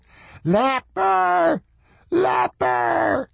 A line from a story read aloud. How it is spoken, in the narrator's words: the red-haired hag shrieked